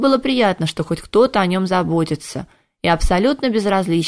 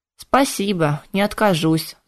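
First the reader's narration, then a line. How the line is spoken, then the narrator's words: Sigh. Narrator (Russian): вздохнул Кайден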